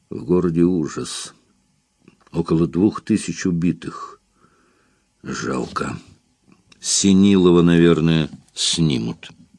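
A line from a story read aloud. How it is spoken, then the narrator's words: Quiet, to mother. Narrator (Russian): тихо сказал матери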